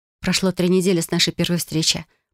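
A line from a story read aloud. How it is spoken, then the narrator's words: Whispered. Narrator (Russian): прошептала я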